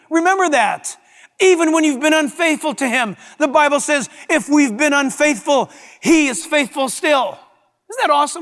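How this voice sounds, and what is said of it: Yelling, excited preaching. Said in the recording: “sorry, I'm yelling. I'm pumped up about this.”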